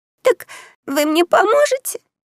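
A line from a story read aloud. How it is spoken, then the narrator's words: Squeaky. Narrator (Russian): пропищала мнимая баронесса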